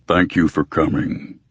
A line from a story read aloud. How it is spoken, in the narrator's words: River Shoulders rumbled